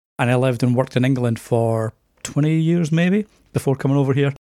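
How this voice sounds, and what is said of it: Softened Scottish accent with Canadian mix. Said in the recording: “you have like the Scottish accent, but you also have the Canada in there. So you've got like the mixture. ... the accent's definitely softened over the years”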